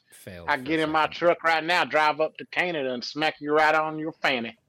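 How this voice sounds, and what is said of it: Put-on Southern redneck accent. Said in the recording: “I can do a pretty good Southern guy ... I don't think a redneck would actually use the term fanny.”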